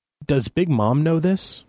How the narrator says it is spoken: I stammered

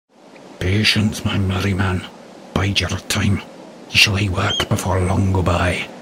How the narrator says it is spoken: In a yet deeper whisper, he added encouragingly

